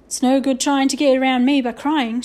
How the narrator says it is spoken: shouted Mr

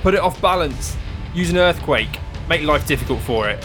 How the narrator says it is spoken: Felix shouts out to Pratchett

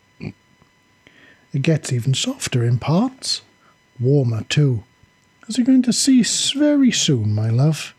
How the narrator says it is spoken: she purred back

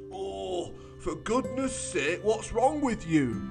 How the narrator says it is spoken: groaned

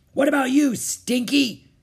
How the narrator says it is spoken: Captain Bones roared

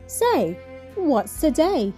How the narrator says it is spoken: shouted out

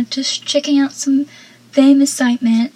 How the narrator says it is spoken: Pacey then nervously says

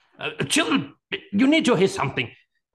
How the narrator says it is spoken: said urgently

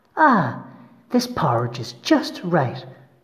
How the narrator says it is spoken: she said happily

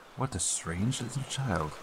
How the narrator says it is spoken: He's just going to mutter to himself

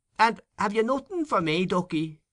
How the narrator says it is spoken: Her husband called out to her

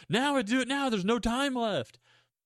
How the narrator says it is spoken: Eric is yelling at the little girl

